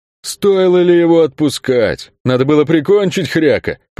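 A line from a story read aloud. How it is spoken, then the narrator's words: Booming, childishly offended. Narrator (Russian): прогудел Кельк с совершенно детской обидой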